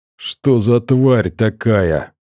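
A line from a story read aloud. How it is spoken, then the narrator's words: Groaning question. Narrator (Russian): простонал коготь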